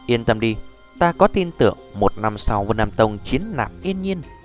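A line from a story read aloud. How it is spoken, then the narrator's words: Sighing, laughing. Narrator (Vietnamese): Tiêu Viêm thở dài một hơi cười nói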